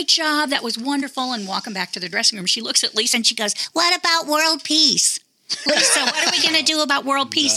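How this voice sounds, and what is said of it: Imitates another person's voice. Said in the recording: “That was a great impression of her, though. That voice she has.”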